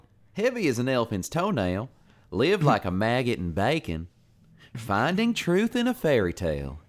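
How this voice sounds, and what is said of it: Put-on Southern drawl. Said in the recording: “Can you say that one with the Southern drawl, please? ... I'll read them off the Southern drawl. ... That's a pretty good impression”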